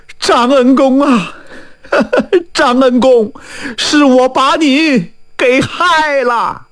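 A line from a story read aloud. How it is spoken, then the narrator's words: Old woman wailing. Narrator (Chinese): 老太太是放声大哭啊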